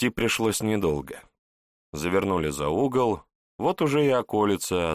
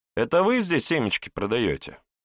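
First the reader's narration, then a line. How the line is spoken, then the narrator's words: Cheerful question, young man. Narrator (Russian): весело поинтересовался бледнолицый юноша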